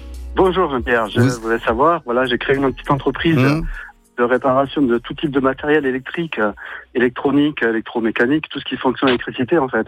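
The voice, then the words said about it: Southern French Montpellier accent. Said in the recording (French): “Montpellier, là, on entend l'accent, c'est bien. Ça fait penser au soleil.”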